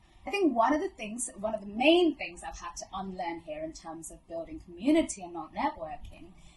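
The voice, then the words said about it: Posh British accent. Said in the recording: “truly, truly posh ... this accent is my own. But it's been deliberately cultivated ... people associate this accent with value, with knowledge, with power”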